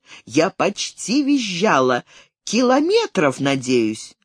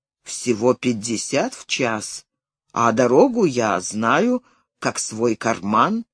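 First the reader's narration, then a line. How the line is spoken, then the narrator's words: Flustered then gentle. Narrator (Russian): Он явно растерялся, а потом сказал мягко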